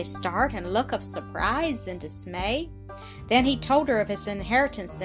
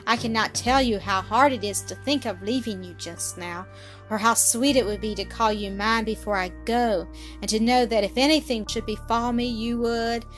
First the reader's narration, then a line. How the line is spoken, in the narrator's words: sighed